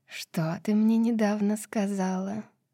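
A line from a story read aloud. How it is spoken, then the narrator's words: Lazy question. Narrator (Russian): лениво спросила ее королева змей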